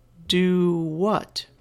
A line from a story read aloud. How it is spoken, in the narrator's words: I posed the question slowly